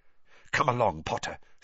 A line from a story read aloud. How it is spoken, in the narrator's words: she whispered